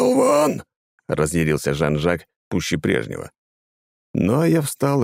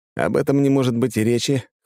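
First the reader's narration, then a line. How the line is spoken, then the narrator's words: Snorting. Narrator (Russian): хмыкнул я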